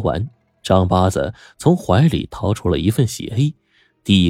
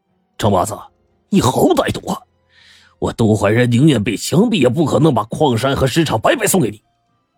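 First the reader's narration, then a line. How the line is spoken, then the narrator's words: Furious, humiliated. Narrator (Chinese): 这杜怀仁就恼羞成怒了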